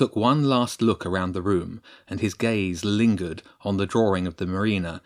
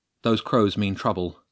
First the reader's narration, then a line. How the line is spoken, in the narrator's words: James said quickly